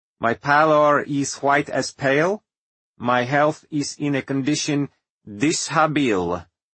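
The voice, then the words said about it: High-pitched thick Serbian accent as Tesla. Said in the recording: “Tesla's high-pitched and thickly accented voice ... the muddle of his Serbian accent”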